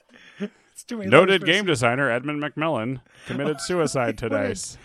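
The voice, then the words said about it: Terrible reporter-style impersonation. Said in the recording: “reporter voice ... What a terrible impersonation of Ace Mindley, the mind bound detective”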